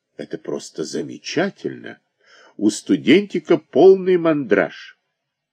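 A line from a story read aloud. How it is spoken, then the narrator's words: Officer's exclamation. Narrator (Russian): Какой-то офицер воскликнул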